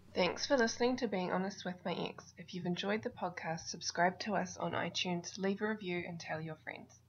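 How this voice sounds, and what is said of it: Cute New Zealand accent. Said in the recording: “that's a New Zealand accent? ... That is like the cutest New Zealand accent I've heard in a while.”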